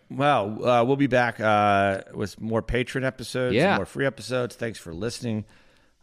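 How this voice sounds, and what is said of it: Hoarse, sick-sounding voice. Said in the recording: “my hoarse Omicron COVID variant voice”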